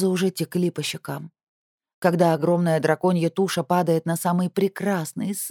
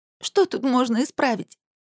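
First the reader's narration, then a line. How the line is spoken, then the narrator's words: Sobbing. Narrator (Russian): всхлипнула я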